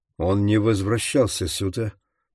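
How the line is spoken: Clipped, from across room. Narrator (Russian): процедил Лаури из другого угла трейлера

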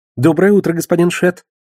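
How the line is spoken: Cheerful greeting. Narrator (Russian): бодро поприветствовала Лиза

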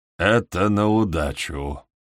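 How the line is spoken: Mutter, hoarse quiet chuckle. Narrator (Russian): бормочет он и продолжает сиплым негромким смешком

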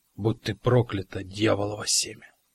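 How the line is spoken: Mumbling through numb lips. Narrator (Russian): пробормотал ледовый лоцман, с трудом шевеля онемевшими от холода губами

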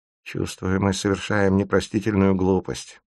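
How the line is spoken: Muttering to herself. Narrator (Russian): бормочет Эсмеральда про себя

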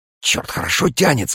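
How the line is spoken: Whisper. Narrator (Russian): сказал Алексей Иванович шепотом

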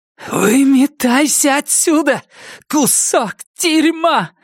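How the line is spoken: Hoarse, cracking shout. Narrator (Russian): крикнула Джесси хриплым срывающимся голосом

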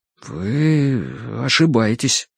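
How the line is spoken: Muttering. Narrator (Russian): пробормотал он

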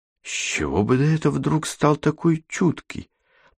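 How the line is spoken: Muttered. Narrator (Russian): пробормотала Катерина

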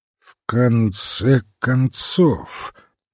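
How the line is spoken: Slow repetition. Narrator (Russian): медленно повторил он

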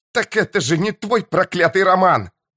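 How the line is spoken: Shouted. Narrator (Russian): закричала она

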